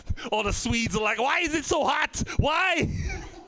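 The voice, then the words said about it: Mock Swedish accent sounding German. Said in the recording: “That's a German accent pretend to be a Swedish accent.”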